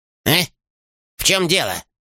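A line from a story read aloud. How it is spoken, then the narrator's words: Sudden bark. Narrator (Russian): вдруг рявкнул Хруст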